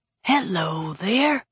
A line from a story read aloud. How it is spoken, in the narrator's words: Luther said, his voice barely above a whisper